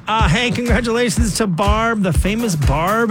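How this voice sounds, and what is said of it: Usual voice. Nothing is said of it.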